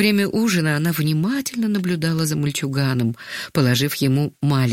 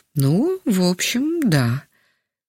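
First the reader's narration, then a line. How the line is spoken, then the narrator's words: Slightly uncertain. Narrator (Russian): немного неуверенно кивнул головой Яков Иванович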